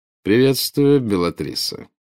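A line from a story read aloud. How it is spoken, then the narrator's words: Slightly mocking. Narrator (Russian): ответил он, чуть насмешливо искривив губы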